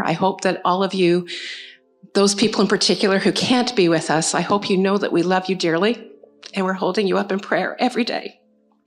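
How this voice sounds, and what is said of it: Hoarse, tearful, breaking voice. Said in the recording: “losing my voice and my ability to talk without crying”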